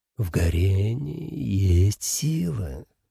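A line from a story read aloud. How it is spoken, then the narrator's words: Purring demon. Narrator (Russian): промурлыкал демон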